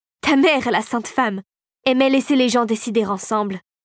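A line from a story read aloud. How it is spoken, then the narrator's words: Sneering woman. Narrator (French): ricana la régente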